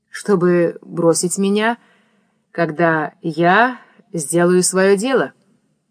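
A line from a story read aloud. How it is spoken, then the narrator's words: Mocking, barely audible. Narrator (Russian): спросил Никита с усмешкой, и казалось чересчур тихо, чтобы его можно было расслышать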